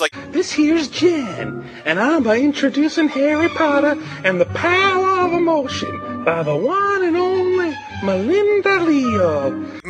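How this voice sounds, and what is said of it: Put-on southern accent. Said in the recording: “why did he do a southern accent? Sounds like he's about to explode ... it sounds like he was just trying to say things differently”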